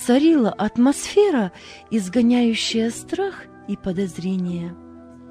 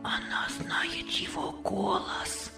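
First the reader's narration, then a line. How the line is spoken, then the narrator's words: Boys whispering together. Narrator (Russian): шептались мальчики между собою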